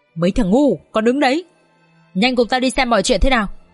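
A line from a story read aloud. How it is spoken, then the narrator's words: Harsh growl. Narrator (Vietnamese): Lão Hổ gằn giọng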